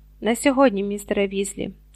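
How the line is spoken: Plain. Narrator (Ukrainian): відповів Дамблдор

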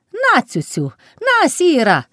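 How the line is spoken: Shout. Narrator (Ukrainian): крикнула Палашка

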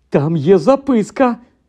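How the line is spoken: Sudden exclamation. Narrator (Ukrainian): раптом вигукнув Рон

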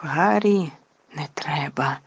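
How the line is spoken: Terrified whisper. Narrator (Ukrainian): нажахано прошепотіла Герміона

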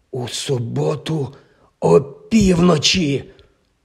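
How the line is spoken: Hoarse exclamation. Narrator (Ukrainian): хрипко вигукнув він

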